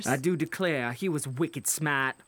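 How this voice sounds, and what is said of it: Mixed Boston and Southern accent. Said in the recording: “Bostonian on some words, Southern on the others.”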